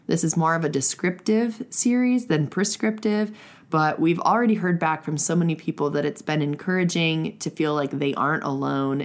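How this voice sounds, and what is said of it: Congested voice from a cold. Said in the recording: “apologize for my voice. I have picked up a cold from our children”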